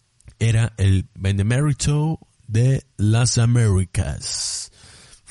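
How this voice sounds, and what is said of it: Put-on American gringo accent. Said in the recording (Spanish): “voy a hacerlo con acento gringo”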